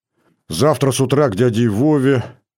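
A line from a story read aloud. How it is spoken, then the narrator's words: Sleepy musing. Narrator (Russian): сонно планировал я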